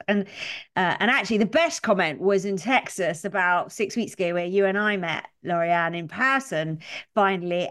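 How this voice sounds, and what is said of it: Strong British accent. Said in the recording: “I have a very strong British accent”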